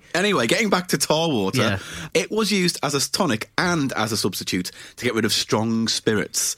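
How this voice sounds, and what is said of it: Regional accent. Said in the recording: “my horrible regional accent”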